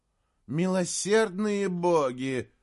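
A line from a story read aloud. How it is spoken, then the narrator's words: Moan. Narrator (Russian): простонала Мегвин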